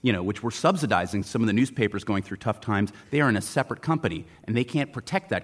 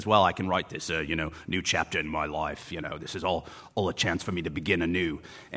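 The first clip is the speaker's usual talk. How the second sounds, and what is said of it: Mumbled, vaguely Australian impression. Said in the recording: “That is a really good Rupert Murdoch impression ... the ability to mumble with something that might seem Australian”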